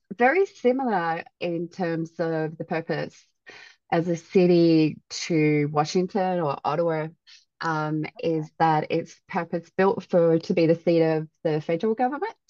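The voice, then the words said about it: Australian accent. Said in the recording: “your lovely accent ... besides being from Canberra, Australia”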